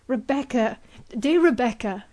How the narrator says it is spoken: exclaimed Ivanhoe

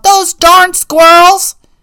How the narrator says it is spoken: yelled

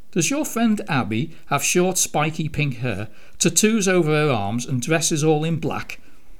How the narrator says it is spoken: Victoria laughed, feeling immediately hugely elated and warm all over

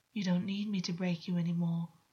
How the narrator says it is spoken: August said, his voice almost soothing

